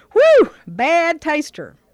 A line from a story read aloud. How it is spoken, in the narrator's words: hollered